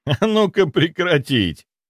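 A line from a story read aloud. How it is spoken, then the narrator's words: Laughing. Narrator (Russian): рассмеялся я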